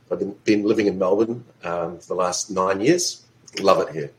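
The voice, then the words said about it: New Zealand accent. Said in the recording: “they may detect my accent. I'm actually originally from New Zealand.”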